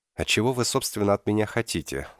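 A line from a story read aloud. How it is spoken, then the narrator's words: Weary tone. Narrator (Russian): спросил я измученным тоном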